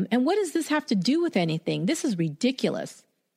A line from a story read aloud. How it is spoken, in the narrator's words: snapped at them